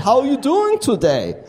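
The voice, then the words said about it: English with put-on German accent. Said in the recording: “speaking English with a German accent ... I'll use my accent.”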